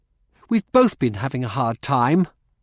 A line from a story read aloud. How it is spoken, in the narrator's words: Rosalind said sharply